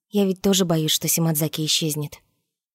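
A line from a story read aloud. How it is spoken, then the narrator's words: Quiet, close to ear. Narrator (Russian): Нарусе вдруг наклонилась к самому моему уху и тихонько сказала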